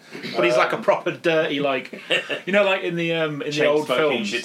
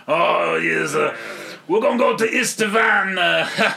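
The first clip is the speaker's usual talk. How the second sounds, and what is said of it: Mock French accent. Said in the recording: “that same mock French accent that all the American actors used when they had the wreaths of onions”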